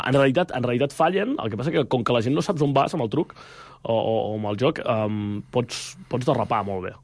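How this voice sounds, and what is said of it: Rural Catalan village accent. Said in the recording (Catalan): “tinc així accent de poble ... un català de poble”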